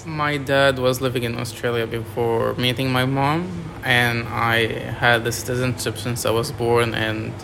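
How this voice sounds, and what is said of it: French accent. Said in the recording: “a very nice accent ... I'm from France.”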